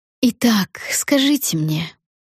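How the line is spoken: Purring. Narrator (Russian): промурлыкала мадам Лабель

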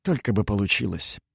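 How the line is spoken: Muttering. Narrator (Russian): пробормотал стоящий рядом Винчер

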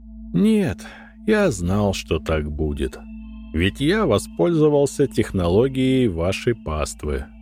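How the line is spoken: Priest, sighing. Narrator (Russian): вздохнул священник

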